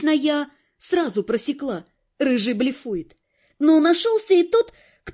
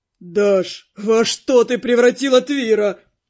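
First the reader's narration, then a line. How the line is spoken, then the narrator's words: Groaning through laughter. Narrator (Russian): Сквозь хохот простонал он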